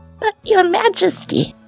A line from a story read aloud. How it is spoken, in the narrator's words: quavered old scholar